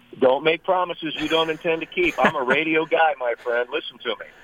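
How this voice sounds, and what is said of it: Polished radio announcer voice. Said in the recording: “I got a radio voice.”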